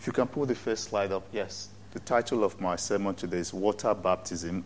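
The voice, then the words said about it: Speaks with a noticeable accent. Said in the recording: “I will not apologize for who I am or for my accent either.”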